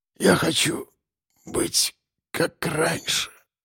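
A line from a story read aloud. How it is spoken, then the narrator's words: Barely audible. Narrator (Russian): сорвалось с его губ еле слышно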